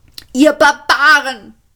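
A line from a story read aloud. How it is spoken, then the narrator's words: Screaming. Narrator (German): schrie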